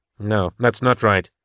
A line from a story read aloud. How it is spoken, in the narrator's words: Patience said sharply